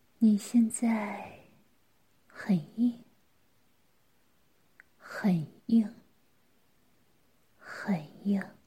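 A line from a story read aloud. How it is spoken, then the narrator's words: Soft voice. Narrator (Chinese): 嫣嫣轻声说道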